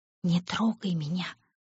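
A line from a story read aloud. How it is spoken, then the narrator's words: Hiss. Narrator (Russian): прошипела Оникс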